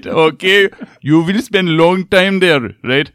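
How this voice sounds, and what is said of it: Put-on accent of a scam caller. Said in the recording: “the accent is, you know, definitely”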